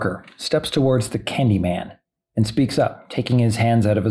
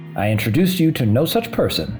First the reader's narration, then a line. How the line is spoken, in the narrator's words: says Javier